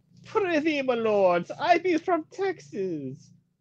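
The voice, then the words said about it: Bad put-on accent. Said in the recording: “I don't know what accent I'm doing. I just know it's bad.”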